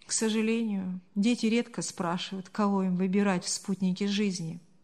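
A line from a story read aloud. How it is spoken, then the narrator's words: Father sighing. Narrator (Russian): вздохнул отец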